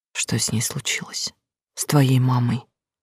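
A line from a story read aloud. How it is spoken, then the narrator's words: Quiet question. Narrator (Russian): тихо спросила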